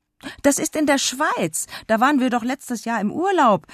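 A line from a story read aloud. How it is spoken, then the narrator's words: Call. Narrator (German): rief Karli, um den Vater aus seiner peinlichen Lage zu retten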